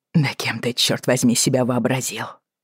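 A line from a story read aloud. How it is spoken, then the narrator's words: Hissed. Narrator (Russian): прошипел он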